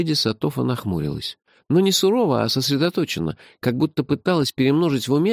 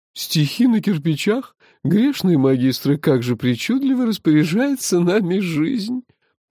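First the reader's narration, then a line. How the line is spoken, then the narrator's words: Laughing. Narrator (Russian): Рассмеялась леди Хайста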